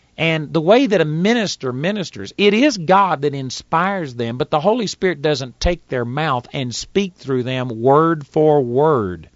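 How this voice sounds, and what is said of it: Texas accent. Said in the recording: “I've got a Texas accent. I'm a hick from Texas.”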